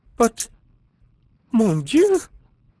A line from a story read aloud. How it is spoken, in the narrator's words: cried the Countess